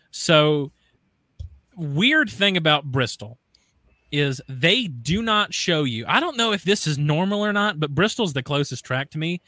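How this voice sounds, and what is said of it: Southern US accent. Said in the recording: “I don't know if you can tell, like, if I have an accent or whatever, but I'm from the South.”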